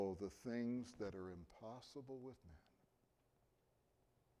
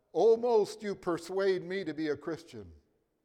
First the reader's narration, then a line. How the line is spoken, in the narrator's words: King Agrippa blurted out